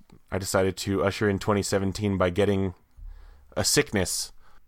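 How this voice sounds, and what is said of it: Husky, hoarse sick voice. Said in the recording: “I apologize for the condition of my voice ... a wonderful radio voice ... I can get husky ... an air of NPR authority”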